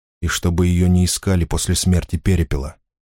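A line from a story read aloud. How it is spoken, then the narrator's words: Quiet. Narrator (Russian): тихо сказал он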